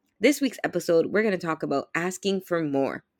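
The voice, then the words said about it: Sick-sounding voice. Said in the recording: “I do apologize for my voice this week. I'm a little bit under the weather again”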